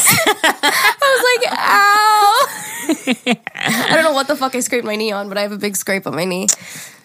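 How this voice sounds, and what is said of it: Congested, nasal, rough voice. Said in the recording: “my voice is nasty ... That sexy voice ... So boogery”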